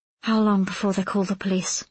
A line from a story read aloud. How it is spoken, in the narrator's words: she whispered